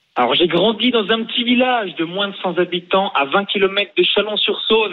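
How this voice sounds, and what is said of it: Slight regional French accent. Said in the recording (French): “je trouve que tu as un petit accent.”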